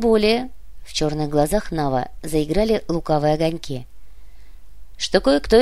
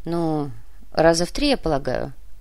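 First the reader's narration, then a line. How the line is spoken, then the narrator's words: Grumbling. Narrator (Russian): проворчал Кортес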